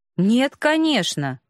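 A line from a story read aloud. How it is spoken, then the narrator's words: Indignant reply. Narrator (Russian): возмущенно ответил пленник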